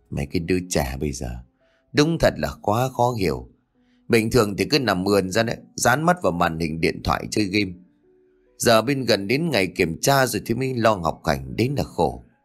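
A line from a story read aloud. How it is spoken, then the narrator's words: Weary sigh. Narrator (Vietnamese): bà Tuyết thở dài ngao ngán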